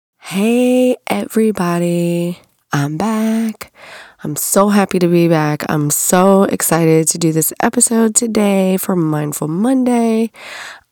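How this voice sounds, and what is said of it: Congested voice from a head cold. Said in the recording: “my voice is not 100% yet. I am just coming off of a head cold ... this crazy voice”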